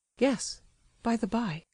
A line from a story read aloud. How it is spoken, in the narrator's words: whispered the prince, hurriedly and excitedly as before, as though he had just seized hold of an idea and was afraid of losing it again